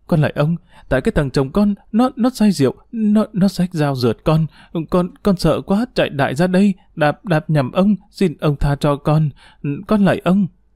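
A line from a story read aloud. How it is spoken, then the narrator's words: Trembling voice. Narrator (Vietnamese): Tu run rẩy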